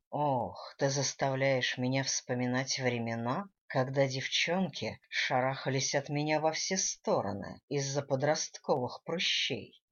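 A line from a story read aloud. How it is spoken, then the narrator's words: Sighing. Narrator (Russian): Вздохнул Гвидо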